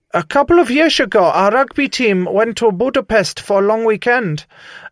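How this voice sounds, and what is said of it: Bad put-on Dutch accent. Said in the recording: “I hope Melsh isn't offended by my bad accent ... This is the best Dutch that I can do now”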